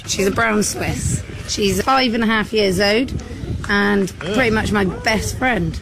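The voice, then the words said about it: British accent. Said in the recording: “her disgusting British accent ... British ... British voices it's like nails on a chalkboard”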